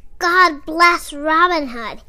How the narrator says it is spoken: he shouted

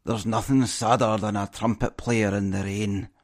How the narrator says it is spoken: one less than impressed listener heard to mutter

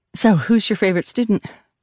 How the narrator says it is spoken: I blurted, too fast, too eager

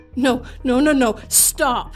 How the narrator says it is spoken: screamed at the top of my lungs

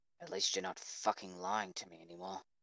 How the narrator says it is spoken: quietly, Kachan muttered

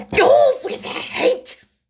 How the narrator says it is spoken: The Queen turned crimson with fury, screamed

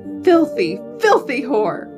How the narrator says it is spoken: Martha screamed as rage took over her mind

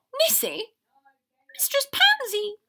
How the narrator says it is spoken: Nissy exclaimed

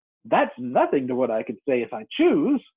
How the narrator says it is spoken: the Duchess replied in a pleased tone

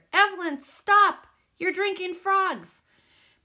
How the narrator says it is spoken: somebody hollered

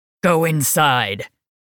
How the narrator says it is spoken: Cade growled

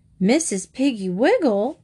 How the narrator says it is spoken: exclaimed Mrs

